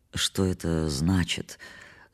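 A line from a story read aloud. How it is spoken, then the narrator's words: Muffled voice. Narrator (Russian): спросил я заглушенным голосом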